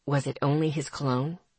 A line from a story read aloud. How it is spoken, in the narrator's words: Miles asked gently